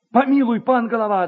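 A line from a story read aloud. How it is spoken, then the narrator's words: Crowd shouting. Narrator (Russian): закричали некоторые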